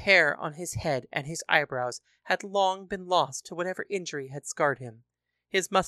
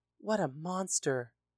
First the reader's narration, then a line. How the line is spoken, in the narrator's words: A woman in the audience could be heard gasping